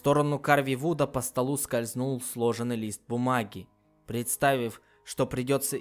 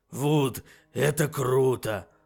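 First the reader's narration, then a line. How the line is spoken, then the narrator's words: Hoarse wheeze. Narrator (Russian): просипел Фаций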